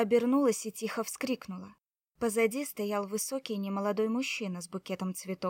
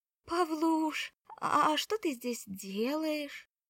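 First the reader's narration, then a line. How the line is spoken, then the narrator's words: Weak mother's voice. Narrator (Russian): слабым голосом спросила мама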